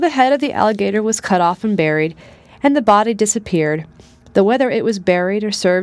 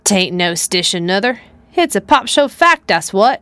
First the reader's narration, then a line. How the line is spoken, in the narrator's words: muttered Aunt Chloe angrily